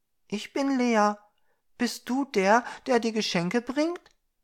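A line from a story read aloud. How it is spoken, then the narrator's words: Girl's slightly fearful question. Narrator (German): fragte das Mädchen etwas ängstlich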